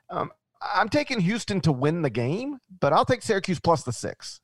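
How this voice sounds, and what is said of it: Memphis Southern accent. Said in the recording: “your Memphis accent goes Syracuse ... It's just your accent, man.”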